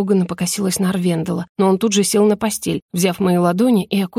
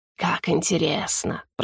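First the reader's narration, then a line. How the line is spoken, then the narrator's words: Sarcastic hiss. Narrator (Russian): прошипел Игнар, явно подразумевая обратное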